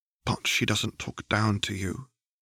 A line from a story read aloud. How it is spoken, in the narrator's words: she said softly